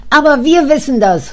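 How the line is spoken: Child interrupting call. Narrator (German): ruft der kleine Richard wieder dazwischen

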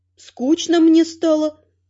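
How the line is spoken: Mock-sad sigh. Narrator (Russian): Наигранно печально вздохнула я

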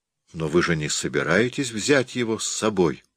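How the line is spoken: Trembling question. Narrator (Russian): дрожащим голосом спросила Мэтч

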